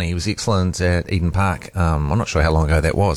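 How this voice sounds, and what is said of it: Usual voice. Nothing is said of it.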